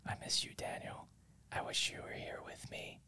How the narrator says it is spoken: Emily whispered

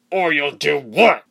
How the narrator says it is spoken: He growled very close to her face

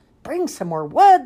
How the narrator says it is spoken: the people cried

